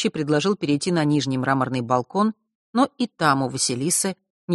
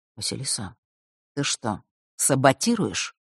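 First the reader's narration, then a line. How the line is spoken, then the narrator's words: Quiet, secretive question. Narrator (Russian): тихо спросил он, убедившись, что остальные их не услышат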